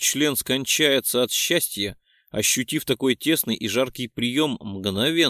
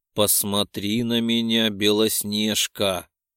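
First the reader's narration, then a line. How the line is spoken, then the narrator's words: Hoarse rasp. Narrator (Russian): прохрипел я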